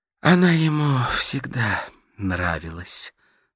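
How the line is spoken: Sigh. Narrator (Russian): вздохнула Карла

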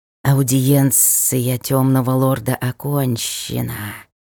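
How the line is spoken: Serpent's hiss. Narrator (Russian): прошипел змей

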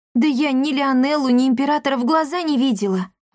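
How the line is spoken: Exclaiming woman. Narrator (Russian): воскликнула Дарина

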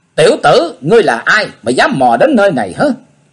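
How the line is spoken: Loud shout. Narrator (Vietnamese): một tên cao thủ hét lớn

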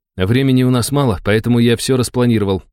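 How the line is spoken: Enthusiastic exclamation. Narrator (Russian): воскликнул воодушевленный парень

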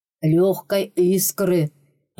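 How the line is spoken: Wheezing, hoarse. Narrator (Russian): прохрипел маг-виртуоз Друнь

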